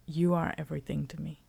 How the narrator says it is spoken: he says quietly

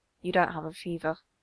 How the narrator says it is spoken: he murmurs

